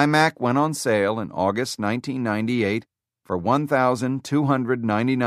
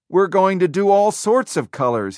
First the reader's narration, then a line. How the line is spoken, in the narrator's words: he told them excitedly